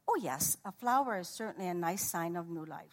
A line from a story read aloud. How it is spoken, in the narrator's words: she said